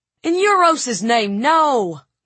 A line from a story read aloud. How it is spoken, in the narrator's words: groaned Elias